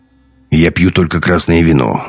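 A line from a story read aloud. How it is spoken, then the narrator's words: Mutter. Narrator (Russian): буркнул Беленин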